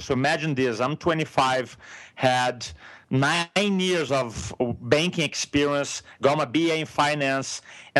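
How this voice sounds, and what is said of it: Brazilian-accented English. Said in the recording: “I'm from Brazil. In a moment, you're going to realize with my accent. In the first couple of minutes, I start speaking slowly and too fine-tuned to my accent.”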